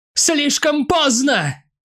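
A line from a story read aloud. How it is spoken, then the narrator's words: Shout. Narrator (Russian): крикнула она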